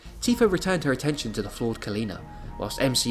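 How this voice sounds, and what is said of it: Usual voice. Nothing is said of it.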